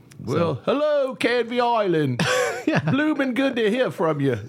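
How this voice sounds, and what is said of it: Attempted British accent. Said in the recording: “you probably don't say blooming. I think I'm getting my accents mixed up again.”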